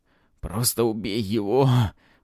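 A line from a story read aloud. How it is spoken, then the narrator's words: Hoarse rasp. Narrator (Russian): прохрипел Антон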